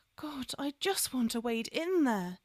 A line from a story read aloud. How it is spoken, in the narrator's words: she groaned